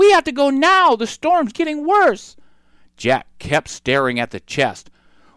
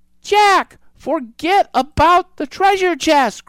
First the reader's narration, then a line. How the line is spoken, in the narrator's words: cried Annie